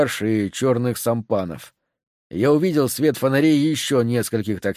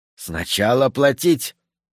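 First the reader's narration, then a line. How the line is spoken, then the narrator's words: Hiss. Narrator (Russian): прошипел молодунг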